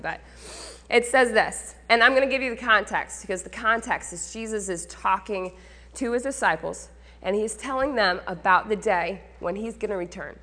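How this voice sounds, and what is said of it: Slightly raspy voice. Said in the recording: “I don't feel very good. ... My voice is a little raspy,”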